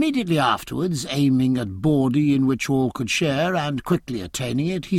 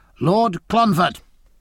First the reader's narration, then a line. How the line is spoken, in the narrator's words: called Jack in a strong voice